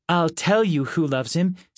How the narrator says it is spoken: said Grace

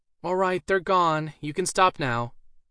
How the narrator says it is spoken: Alice finally called out

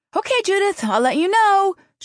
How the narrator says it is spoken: she said, raising her voice to carry through the barrier

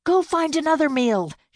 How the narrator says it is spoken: yelled when her muscles threatened to give up on her

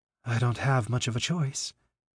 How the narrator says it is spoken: Sai explained, his voice quivering a little

